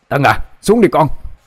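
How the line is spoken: Sharp shout. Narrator (Vietnamese): tiếng quát

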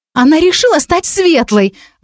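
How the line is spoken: Scornful exclamation. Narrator (Russian): воскликнула Вика таким голосом, будто речь шла о самой большой глупости

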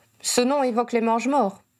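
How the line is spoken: Cold remark. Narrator (French): jugea froidement Owen

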